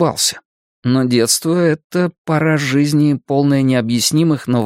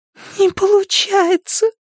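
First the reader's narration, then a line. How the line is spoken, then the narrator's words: Frightened, tearful. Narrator (Russian): сказала она, испуганно сквозь слезы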